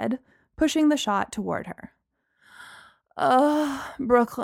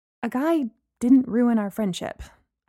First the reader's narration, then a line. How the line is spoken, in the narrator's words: I stammered